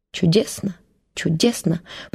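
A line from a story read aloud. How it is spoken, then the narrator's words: Pleased muttering in Russian. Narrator (Russian): пробормотал по-русски довольный Краузе, ставя ударение на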